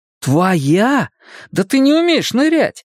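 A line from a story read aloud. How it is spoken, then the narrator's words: Teasing exclamation. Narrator (Russian): воскликнул Макс, желая позлить сестру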